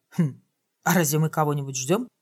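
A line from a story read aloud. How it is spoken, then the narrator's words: Whispered. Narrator (Russian): Логика шепнула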